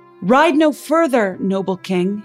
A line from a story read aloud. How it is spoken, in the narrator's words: he shouted